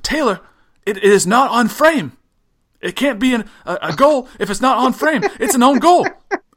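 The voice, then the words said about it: Poor John Champion impression. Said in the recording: “I just enjoy your accent. ... that's the world's worst John Champion.”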